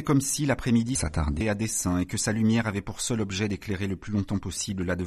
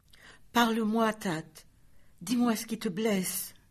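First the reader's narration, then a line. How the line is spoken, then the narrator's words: Silent inner pleading. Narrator (French): suppliait Anka en silence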